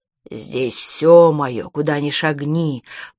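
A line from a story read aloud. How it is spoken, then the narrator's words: Growl. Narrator (Russian): прорычал Лабок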